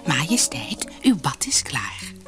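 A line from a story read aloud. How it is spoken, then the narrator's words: Whispered. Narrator (Dutch): fluisterde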